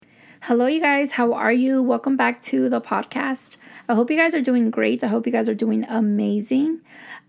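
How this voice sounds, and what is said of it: Slightly raspy voice. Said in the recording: “my voice is not 100% back. I feel like it's back, but when I talk a lot, I still sound kind of raspy.”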